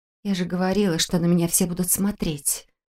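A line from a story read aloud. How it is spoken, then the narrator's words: Quiet complaint. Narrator (Russian): тихонько пожаловалась я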